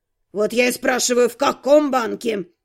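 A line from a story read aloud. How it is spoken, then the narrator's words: Unrestrained growling. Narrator (Russian): Герцог, уже не сдерживаясь, рычал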